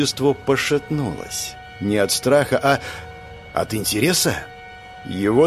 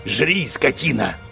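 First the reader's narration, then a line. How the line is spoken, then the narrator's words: Hoarse wheeze. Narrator (Russian): прохрипел Гиджин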